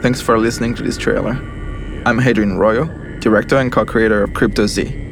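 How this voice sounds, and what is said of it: French accent. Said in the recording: “you won't have to suffer my French accent”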